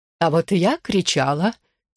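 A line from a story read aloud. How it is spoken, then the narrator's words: Woman's quiet giggle. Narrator (Russian): тихо хихикнула женщина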